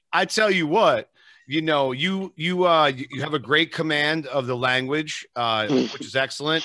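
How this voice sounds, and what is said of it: New Jersey East Coast accent. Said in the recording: “I'm from the East Coast in Jersey ... I butcher the English language ... I love your accent.”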